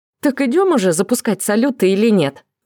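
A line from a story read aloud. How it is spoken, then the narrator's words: Exclaimed. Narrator (Russian): воскликнула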